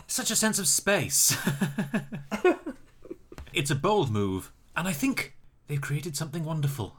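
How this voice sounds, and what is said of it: Impression of Grand Designs presenter. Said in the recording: “Great impression. Excellent impression.”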